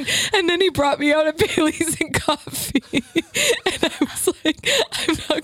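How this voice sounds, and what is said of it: Usual voice. Nothing is said of it.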